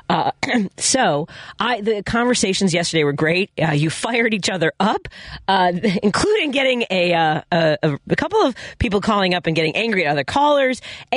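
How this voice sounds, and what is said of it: Congested voice from a cold. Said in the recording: “as you can hear in my voice, I still have this cold.”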